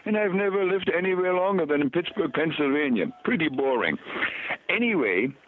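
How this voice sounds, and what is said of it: German accent. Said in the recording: “I don't speak with an Indian accent ... Obviously, that's where my German accent comes from.”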